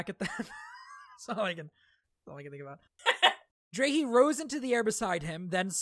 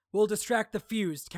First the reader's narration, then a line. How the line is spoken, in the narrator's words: Kaladin shouted to Adolin